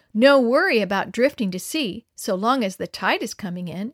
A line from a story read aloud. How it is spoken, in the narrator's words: exclaimed John assuredly